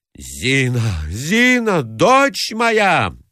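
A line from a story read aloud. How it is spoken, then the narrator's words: Wailing scream. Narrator (Russian): вопила Марья Александровна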